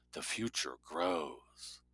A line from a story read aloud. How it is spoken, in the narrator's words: a voiceover whispered